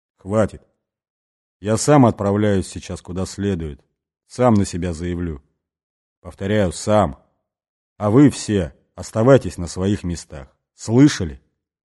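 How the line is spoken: Quiet but hard. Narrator (Russian): Бастон негромко, но жестко сказал

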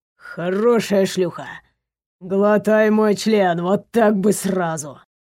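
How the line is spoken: Mutter. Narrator (Russian): Бормотал он

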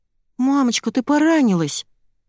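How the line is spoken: Frightened cry. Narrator (Russian): испуганно ойкает Тесса

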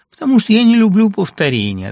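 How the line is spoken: Laughing. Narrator (Russian): отвечала она, смеясь

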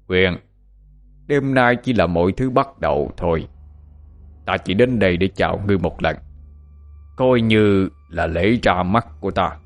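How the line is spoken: Laughing. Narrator (Vietnamese): Hắn ta nhìn thấy dáng vẻ khó xử của Nguyên mà không khỏi bật cười nói

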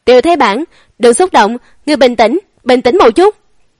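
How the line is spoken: Panicked loud pleading while fleeing. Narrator (Vietnamese): Chiến Bắc Việt hoảng sợ, vừa chạy trốn vừa lớn tiếng thương lượng

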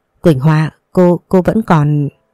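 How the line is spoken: Chattering, stammering. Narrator (Vietnamese): Đôi môi cứ va vào răng rồi lắp bắp nói

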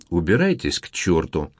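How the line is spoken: Calm, measured, emotionless. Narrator (Russian): добавила она все тем же размеренным, спокойным тоном, лишенным эмоций

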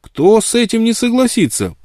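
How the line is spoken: Ardent exclamation. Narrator (Russian): пылко воскликнул он

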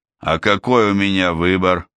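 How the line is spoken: Sighing. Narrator (Russian): Альм вздохнул во второй раз

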